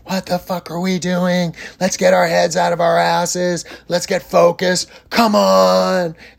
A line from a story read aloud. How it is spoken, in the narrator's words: he screamed at them